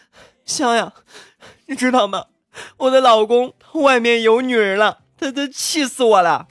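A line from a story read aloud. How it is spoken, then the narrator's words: Tearful complaining voice. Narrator (Chinese): 胖香的闺蜜呢向胖香哭诉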